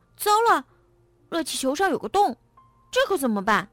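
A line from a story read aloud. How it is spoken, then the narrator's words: Sudden shout. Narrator (Chinese): 他突然大喊道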